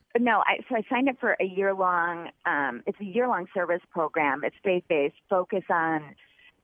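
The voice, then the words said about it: Michigan accent. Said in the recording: “I knew I heard some Michigan in there. ... A lot of Michigan in there. ... this accent is familiar here.”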